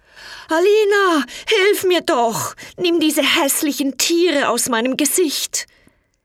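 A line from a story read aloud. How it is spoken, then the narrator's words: Screamed. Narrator (German): Er schrie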